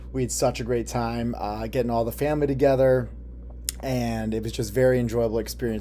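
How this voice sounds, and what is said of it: Slightly raspy voice. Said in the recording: “my voice is a little bit raspy from too much singing, too much dancing, too much fun”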